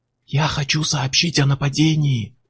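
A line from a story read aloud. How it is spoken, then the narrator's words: Whisper. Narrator (Russian): прошептал он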